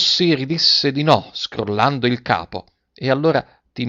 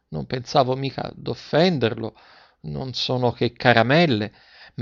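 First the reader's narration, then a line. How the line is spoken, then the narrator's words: Stammering embarrassed apology. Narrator (Italian): rimase mortificata e domandò scusa, balbettando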